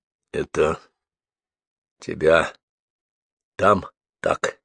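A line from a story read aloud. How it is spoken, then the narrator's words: Hoarse muffled question. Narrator (Russian): глухо спросил севшим хриплым голосом Гордей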